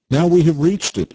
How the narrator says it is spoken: exclaimed Nikita

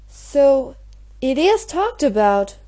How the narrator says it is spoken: exclaimed Mary

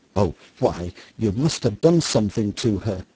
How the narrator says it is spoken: says the mother indignantly

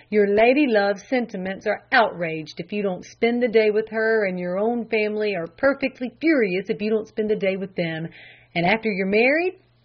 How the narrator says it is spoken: he sighed

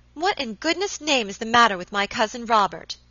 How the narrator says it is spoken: exclaimed Miss Audley impatiently

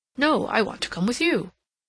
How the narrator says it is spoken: Rodney exclaimed

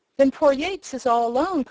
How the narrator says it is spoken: cried Tom

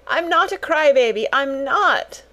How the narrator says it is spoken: wailed Lottie

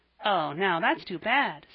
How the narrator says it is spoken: said Jasper

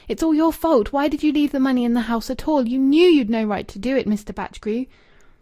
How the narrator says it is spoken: She wept with violence, and then through her tears, she cried out passionately

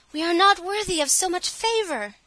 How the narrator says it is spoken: the sisters cried

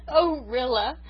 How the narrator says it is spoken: sobbed Miranda

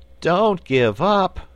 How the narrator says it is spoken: pleaded Button-Bright

